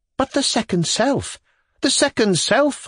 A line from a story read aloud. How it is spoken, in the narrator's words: I exclaimed